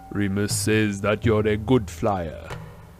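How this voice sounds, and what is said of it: Deep male character voice. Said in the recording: “said Kingsley Shacklebolt in his deep voice.”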